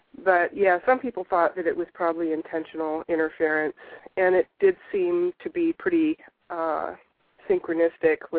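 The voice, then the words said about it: Voice affected by a cold. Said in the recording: “I have a little bit of a cold ... My voice isn't quite up to speed.”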